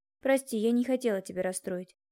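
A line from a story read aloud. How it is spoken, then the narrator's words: Tender, affectionate. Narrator (Russian): ласково сказала я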